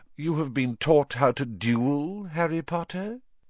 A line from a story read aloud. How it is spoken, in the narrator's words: said Voldemort softly